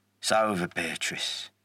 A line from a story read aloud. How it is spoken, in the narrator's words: Whittaker said, his voice calm